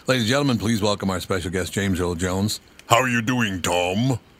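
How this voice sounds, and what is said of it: Deep booming imitated voice. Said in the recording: “I have a pretty deep voice myself ... That's quite the voice there”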